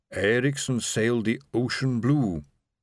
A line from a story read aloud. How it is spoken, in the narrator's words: she intoned